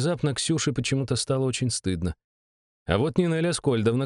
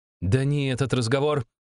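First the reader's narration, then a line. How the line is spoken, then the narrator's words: Barked. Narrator (Russian): рявкнула Белич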